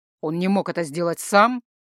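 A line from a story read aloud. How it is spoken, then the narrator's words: Angry question. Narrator (Russian): зло спросил Рихард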